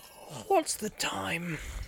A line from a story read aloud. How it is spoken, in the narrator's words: He said sleepily